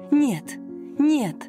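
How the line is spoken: Tearful plea. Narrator (Russian): сквозь слезы попросила Жанна

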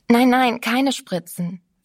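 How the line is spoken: Strangely agitated refusal. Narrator (German): wehrte merkwürdig aufgeregt ab

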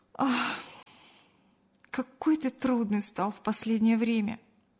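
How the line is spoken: Sigh. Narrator (Russian): вздохнула Кристина

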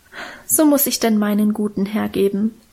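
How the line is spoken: Moved sigh. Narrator (German): seufzte Minchen und schien selber gerührt von ihrer Opferbereitschaft

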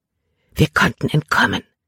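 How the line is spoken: Whispered. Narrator (German): flüsterte sie Caleb zu

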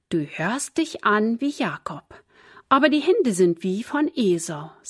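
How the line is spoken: Plain. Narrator (German): sagte Isaak

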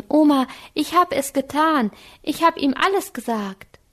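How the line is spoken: Calling out. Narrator (German): rief Anke

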